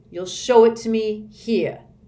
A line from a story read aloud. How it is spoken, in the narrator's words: said in a threatening voice